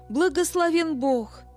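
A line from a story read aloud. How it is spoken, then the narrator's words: Woman exclaiming. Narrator (Russian): женщина, сидевшая за соседним столом, воскликнула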